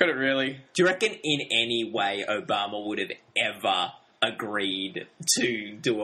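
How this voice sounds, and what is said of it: Usual voice. Nothing is said of it.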